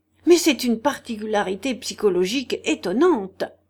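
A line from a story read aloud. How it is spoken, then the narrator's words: Sudden astonished shout. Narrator (French): cria tout à coup d'un ton qui témoignait une surprise profonde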